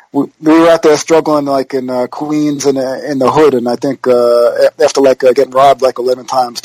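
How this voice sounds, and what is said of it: New York accent. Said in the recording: “do I have a New York accent?”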